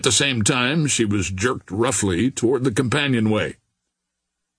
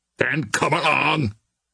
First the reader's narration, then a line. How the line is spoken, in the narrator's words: growled Billy Byrne